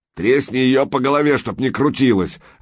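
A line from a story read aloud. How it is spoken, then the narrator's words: Harsh bark. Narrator (Russian): рявкнул тот, который держал Санька на ноже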